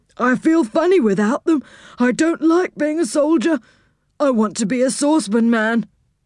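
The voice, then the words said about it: Sad character voice. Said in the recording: “said Saucepan in a sad voice.”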